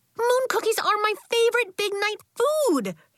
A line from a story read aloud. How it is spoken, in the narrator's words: yelled Nori